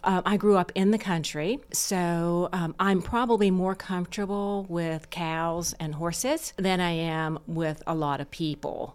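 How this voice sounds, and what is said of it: Slight Southern drawl. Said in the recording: “You've got a little bit of a Southern drawl”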